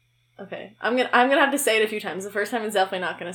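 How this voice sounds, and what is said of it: Usual voice. Nothing is said of it.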